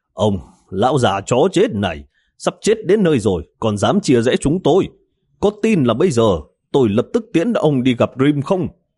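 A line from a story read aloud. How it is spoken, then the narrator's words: Loud angry scolding. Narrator (Vietnamese): Miêu Khôn lớn tiếng mắng chửi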